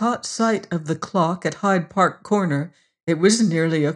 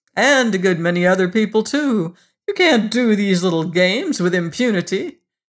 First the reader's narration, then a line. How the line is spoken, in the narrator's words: sneered